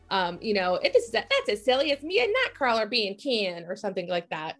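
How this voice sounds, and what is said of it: Poor imitation of a cartoon character. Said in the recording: “my Rogue impression ... That was real bad.”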